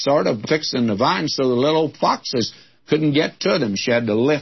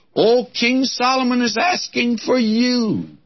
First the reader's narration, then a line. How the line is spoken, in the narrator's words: someone comes to her excitedly and says to her, says